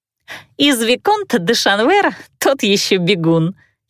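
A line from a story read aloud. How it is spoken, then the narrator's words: Giggling. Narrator (Russian): хихикала Бордело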